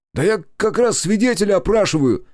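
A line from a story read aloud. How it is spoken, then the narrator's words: Shouted. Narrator (Russian): Крикнул он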